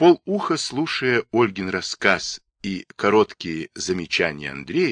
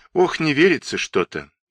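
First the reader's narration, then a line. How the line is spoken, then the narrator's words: Sighed. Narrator (Russian): вздохнула Ольга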